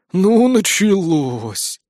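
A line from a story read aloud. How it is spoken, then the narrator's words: Weary sigh. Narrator (Russian): вздохнул Древень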